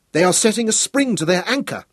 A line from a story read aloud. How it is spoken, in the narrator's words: exclaimed